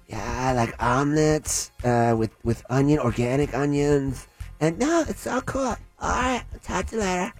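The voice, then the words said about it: Impression of a female celebrity's voice. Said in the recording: “I'm doing the voice ... that is a Tara Reid accent”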